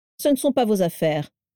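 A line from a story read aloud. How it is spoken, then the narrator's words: Curt reply. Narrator (French): répondit sèchement Abraxas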